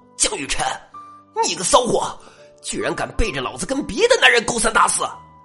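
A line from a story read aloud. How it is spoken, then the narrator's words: Furious yell, thug. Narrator (Chinese): 这黄毛混混冲美女吼道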